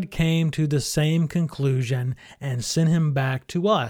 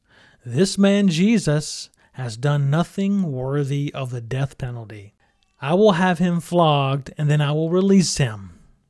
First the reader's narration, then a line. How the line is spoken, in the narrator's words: Pilate said